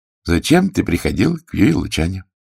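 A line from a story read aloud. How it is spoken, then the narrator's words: Calm, restraining fury. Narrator (Russian): От ярости лицо Гонзолина перекосилось, но он все-таки овладел собой и отвечал спокойно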